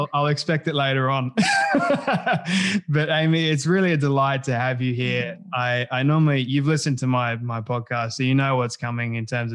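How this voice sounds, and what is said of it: Charming Australian accent. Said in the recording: “the Aussie accent ... very charming ... interesting, compelling accent”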